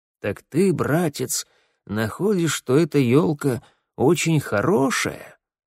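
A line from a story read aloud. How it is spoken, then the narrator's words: Hoarse cracked bass question. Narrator (Russian): спрашивал майор своим сиплым натреснувшим баском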